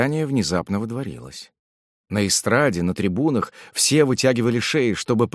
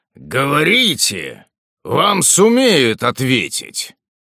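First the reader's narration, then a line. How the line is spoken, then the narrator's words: Low hoarse roar. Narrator (Russian): Чей-то низкий, как бы слегка охрипший голос проревел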